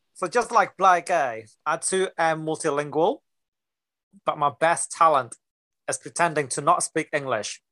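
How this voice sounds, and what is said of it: Mixed Singaporean-style accent. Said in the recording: “my accent is from, it's a huge mixture of Singapore and the gym. And I can tell you, the gym have their own accents.”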